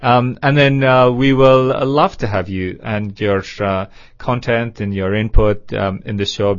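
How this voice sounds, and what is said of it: Speaks with a foreign accent. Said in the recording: “I hope you can understand my accent”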